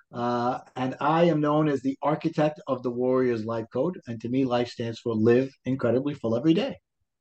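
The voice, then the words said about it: Brooklyn New York accent. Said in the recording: “I live in the wonderful town of Brooklyn, New York ... my accent will always be here”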